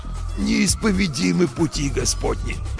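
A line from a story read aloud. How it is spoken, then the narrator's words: Wheezing in pain. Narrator (Russian): Просипел я, морщась от боли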